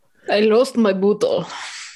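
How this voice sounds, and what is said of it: Put-on Russian accent. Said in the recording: “say that in whatever accent comes to mind ... Russian tends to be my go-to”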